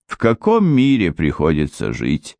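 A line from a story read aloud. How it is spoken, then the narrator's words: Sighing. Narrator (Russian): Анжела вздохнул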